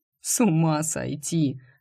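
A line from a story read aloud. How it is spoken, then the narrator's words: Laughing. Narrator (Russian): рассмеялся он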